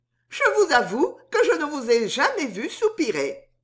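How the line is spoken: Laughing. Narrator (French): dit Suzon en riant

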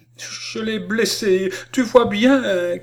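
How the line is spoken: Broken, choking cry. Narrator (French): cria-t-elle d'une voix entrecoupée

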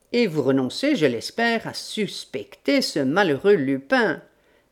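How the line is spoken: Sneering. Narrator (French): ricana M

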